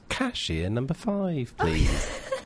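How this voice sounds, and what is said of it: Put-on English accent, airport cashier. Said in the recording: “Oh, can you do an English accent? ... I can do the woman at the airport at the magazine that goes”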